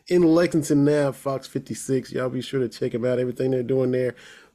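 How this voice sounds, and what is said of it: Polished radio announcer voice. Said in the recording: “that's a good radio voice you got there”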